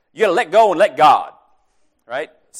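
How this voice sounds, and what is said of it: Southern US preacher accent. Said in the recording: “I feel the need to do this in a southern accent”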